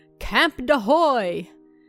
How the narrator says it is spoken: burst out laughing, said

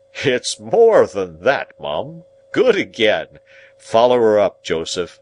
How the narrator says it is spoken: Pumblechook, said with a patronizing laugh

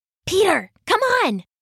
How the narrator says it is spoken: Sasha whispered from the front door

